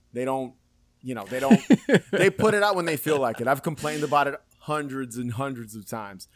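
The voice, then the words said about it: New York accent. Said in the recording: “Typical New Yorker. There you go. It comes out. ... we talked about the accent. ... It came right out ... The most authentic New York everything ever”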